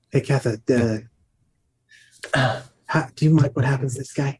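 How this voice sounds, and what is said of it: Menacing put-on accent. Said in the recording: “I don't know when I turned into this accent. This is my threatening accent.”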